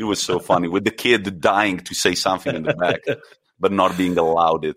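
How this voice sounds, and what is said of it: Usual voice. Nothing is said of it.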